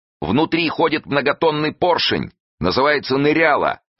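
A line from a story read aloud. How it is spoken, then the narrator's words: Shouting. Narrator (Russian): крикнул Васильев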